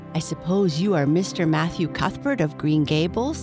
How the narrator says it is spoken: she said in a peculiarly clear, sweet voice

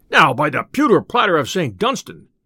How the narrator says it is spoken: cried the tinker

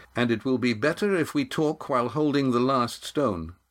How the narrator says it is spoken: said Estrella as firmly as he could

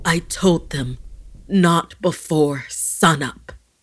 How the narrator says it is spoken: Gasping harshly, tears burning in his eyes, he whispered to himself

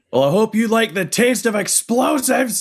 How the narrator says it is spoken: Duncan will yell

